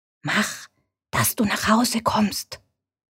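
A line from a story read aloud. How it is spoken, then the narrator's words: Whisper. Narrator (German): flüstert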